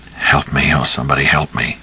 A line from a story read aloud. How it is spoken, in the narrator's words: said in a low voice, so low it was as if he expected no one to hear or heed